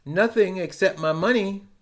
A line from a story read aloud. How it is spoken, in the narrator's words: answered